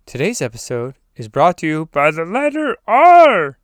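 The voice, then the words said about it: Sesame Street style announcer voice. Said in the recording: “my Sesame Street impression ... it was lame”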